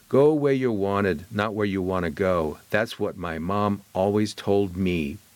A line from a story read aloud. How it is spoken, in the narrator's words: Harper says